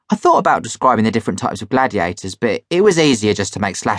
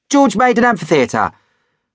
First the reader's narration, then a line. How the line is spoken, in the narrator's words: I blurted out